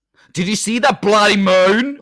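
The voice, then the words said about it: Norwegian attempt sounding Australian. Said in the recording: “You've got Sean Connery. ... Why have I gone Australian again?”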